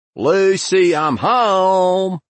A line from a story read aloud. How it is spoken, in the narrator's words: I called out in my most devastating Ricky Ricardo, my voice echoing off the Venetian tile